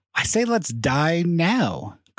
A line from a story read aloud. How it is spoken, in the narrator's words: Carhill cried